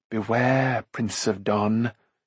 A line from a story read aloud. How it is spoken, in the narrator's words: she said in a hoarse whisper